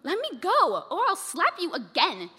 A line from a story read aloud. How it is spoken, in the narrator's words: bellowed